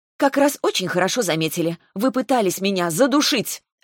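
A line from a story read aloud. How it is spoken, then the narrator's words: Accusing exclamation. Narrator (Russian): обвинительно воскликнула я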